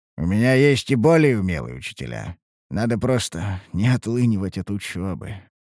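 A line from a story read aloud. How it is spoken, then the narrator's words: Sighing. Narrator (Russian): вздохнул я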